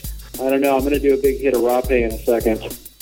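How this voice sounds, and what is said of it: Very chill, monotone voice. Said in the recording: “You sound very chill. ... I am very monotone today. ... Why are you so monotone”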